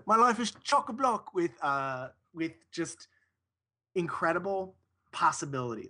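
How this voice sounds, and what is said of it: Put-on British accent. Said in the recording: “I'll do it in a British accent.”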